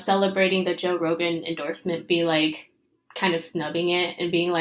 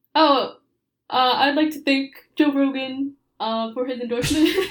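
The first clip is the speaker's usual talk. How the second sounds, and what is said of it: Terse imitation of another person's voice. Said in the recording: “good impression ... just be very, you know, like just terse”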